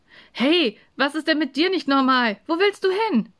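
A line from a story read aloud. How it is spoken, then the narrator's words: Calling after someone. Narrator (German): rief Samu hinter ihm her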